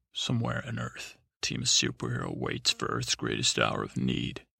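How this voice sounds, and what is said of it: Dramatic action narrator voice. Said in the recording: “put on my action voice”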